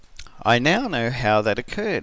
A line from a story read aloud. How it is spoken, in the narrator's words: he said